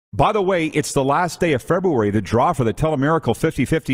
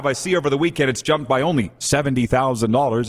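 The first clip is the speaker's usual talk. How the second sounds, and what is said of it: Sarcastic tone. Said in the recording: “I say that sarcastically.”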